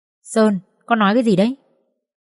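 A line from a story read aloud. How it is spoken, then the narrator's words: Mother's quiet hiss. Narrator (Vietnamese): Mẹ anh ta rít nhỏ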